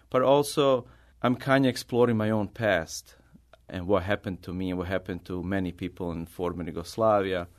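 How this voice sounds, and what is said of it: Non-native English accent. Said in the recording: “speaking English and my accent or where I'm coming from ... because of my accent”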